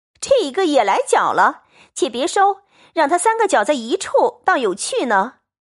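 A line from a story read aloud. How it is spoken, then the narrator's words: Crowd laughing. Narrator (Chinese): 众人笑道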